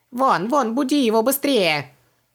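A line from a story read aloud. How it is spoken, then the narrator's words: Yelling. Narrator (Russian): Завопил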